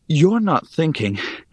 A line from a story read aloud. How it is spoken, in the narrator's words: I panted